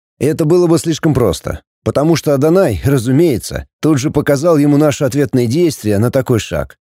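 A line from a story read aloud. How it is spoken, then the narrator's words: Plain. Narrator (Russian): ответил Фэб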